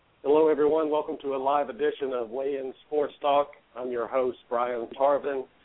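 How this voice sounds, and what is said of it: Voice strained from a cold. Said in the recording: “forgive my voice if it comes in and out today. I have this cold that's going around”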